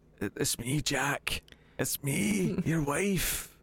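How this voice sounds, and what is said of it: Old woman character voice. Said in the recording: “she came back as like an 85-year-old ... She just comes out an old Scottish woman ... I'm sorry I can't do an accent ... An old person impression”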